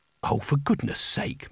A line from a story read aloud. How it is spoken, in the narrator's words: muttered Kanina